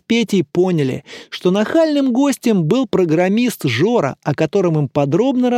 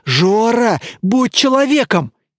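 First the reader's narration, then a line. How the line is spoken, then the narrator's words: Desperate pleading. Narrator (Russian): еще пуще взмолился Илья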